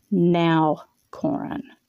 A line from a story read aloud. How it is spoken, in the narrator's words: said, her voice firm